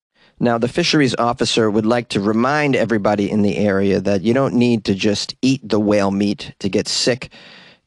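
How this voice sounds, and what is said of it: Boston accent. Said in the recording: “why do I have a Boston accent up here in British Columbia? ... some of us, for some reason, we have Boston accents.”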